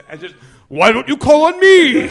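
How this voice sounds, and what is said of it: Put-on deeper voice. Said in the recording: “talk in a deeper voice.”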